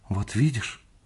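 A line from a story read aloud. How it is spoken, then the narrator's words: Frightened. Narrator (Russian): сказала она испуганно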